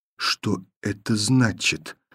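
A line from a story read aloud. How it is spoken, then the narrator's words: Quiet repetition. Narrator (Russian): повторила тихо Таня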